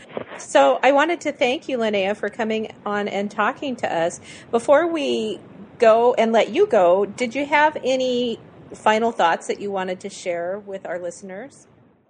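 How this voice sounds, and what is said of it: Hoarse, strained, fading voice. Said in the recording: “my voice is going to hold out for a few more minutes here. I'm losing my voice.”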